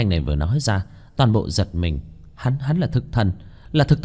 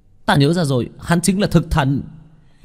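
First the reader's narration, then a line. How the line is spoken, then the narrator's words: Sudden realization exclaim. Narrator (Vietnamese): giống như nghĩ đến cái gì kêu lên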